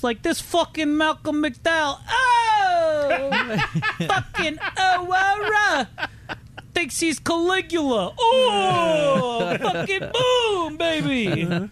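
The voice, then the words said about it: Andrew Dice Clay-style American voice. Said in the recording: “talking an American accent ... He was kind of talking like Andrew Dice Clay.”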